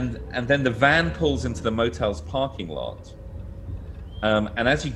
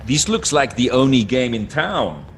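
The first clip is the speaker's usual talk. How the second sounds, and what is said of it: Imitated voice with Montreal accent. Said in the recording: “trying to do my impersonation of Barney doing an impersonation of a Montreal”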